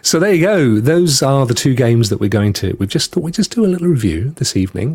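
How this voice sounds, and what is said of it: Voice sounds like a cold. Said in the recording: “I've got a bit of a cold.”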